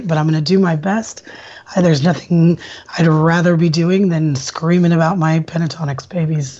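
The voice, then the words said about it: Slightly hoarse voice. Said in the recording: “I'm still a little hoarse tonight”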